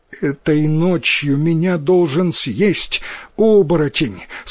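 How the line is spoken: Sobbing girl. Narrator (Russian): сквозь рыдание ответила девочка

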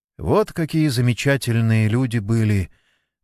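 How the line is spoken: Sigh. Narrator (Russian): вздохнула Марина

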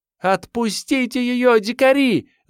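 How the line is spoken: Screamed. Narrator (Russian): закричала Вера

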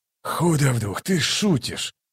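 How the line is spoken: Mutter. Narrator (Russian): пробормотал Ток

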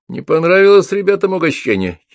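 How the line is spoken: Giggling. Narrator (Russian): хихикнул барон

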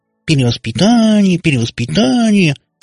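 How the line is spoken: Nasal mocking mimicry. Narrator (Russian): гнусаве передразнила она Кате папа

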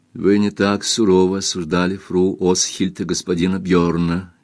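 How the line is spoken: Quiet. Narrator (Russian): тихо сказала Кристин

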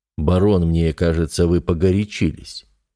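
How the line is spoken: Conciliatory tone. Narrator (Russian): произнес князь примирительным тоном

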